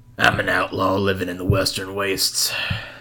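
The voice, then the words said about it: Western outlaw character voice. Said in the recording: “You've been playing too much Red Dead Redemption... that's my D&D character voice.”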